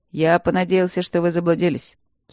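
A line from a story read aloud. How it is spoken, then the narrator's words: Dry. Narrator (Russian): сухо произнес Макс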